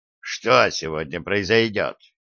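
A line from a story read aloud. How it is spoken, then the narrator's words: Grumbling mutter. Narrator (Russian): Американец буркнул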